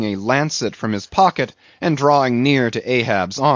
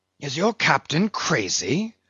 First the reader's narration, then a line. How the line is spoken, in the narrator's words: whispering Fadala